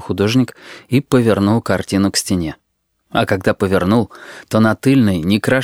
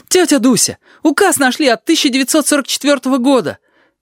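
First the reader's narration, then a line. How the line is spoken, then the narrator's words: Shouting. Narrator (Russian): вбежала Аечка и закричала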